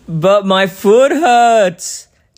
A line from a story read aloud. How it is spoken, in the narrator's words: Daddy wailed